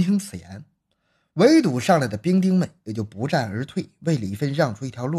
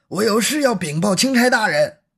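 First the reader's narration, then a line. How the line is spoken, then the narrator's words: Loud repeated shouting while fighting. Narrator (Chinese): 李芬一边赤手空拳的与对方搏击着，一边反复的高声喊着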